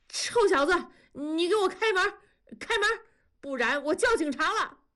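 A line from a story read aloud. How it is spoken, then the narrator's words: Shouting. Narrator (Chinese): 大庄也跟着敲门喊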